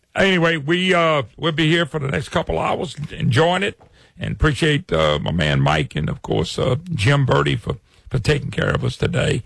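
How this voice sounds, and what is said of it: Louisiana accent. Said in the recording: “don't recognize that accent. It's Louisiana. Trust me. They all talk funny down here.”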